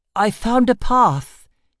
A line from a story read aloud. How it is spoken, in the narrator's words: he exclaimed